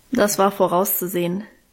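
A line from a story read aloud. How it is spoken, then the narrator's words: Dry remark. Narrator (German): meinte sie trocken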